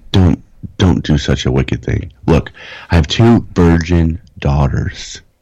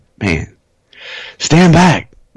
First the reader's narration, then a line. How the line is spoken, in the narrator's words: they shouted